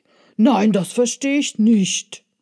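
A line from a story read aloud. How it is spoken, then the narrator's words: Vehement shout. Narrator (German): rief er heftig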